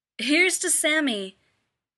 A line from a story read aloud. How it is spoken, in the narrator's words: Bruce shouts